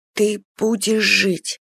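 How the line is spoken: Soft whisper. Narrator (Russian): прошептала тихо

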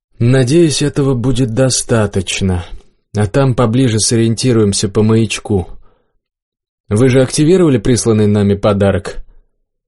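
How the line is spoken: Quiet, sighing. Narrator (Russian): Никас вздохнул и тихо сказал

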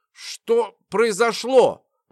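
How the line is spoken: Strained, forced words. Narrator (Russian): выдавила из себя ведьма

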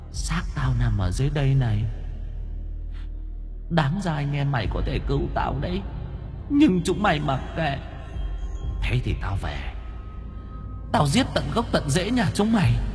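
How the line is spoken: Soft ghostly laugh. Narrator (Vietnamese): Bóng ma chị Huyền cười khẽ

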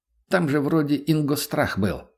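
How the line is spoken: Plain. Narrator (Russian): спросил Антон

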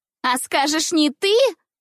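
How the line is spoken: Sharp shout. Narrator (Russian): резко закричала на меня Жюли

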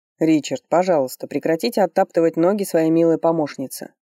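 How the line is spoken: Deliberately calm request. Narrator (Russian): нарочито спокойно попросил Фарлей у моего компаньона

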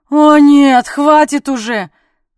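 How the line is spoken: Howled. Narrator (Russian): взвыла Конрад

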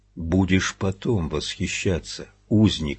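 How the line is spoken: Plain. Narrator (Russian): сказал стрелок

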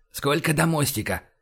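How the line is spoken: Whispered question. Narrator (Russian): спросил шепотом Байкин

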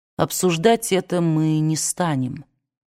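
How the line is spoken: Deathly flat calm voice. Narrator (Russian): сказал Эшли мертвенно ровным, спокойным голосом

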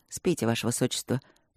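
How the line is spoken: Dry. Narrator (Russian): сухо проговорил он

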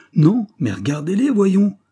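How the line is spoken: Shouting. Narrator (French): cria Holmes

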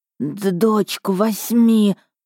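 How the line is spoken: Hissed. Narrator (Russian): прошипела я

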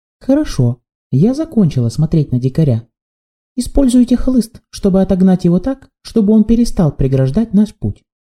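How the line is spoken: Melodious young girl. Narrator (Russian): сказала молодая девушка своим мелодичным голосом

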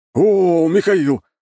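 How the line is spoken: Exclamation. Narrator (Russian): воскликнул Ковальский

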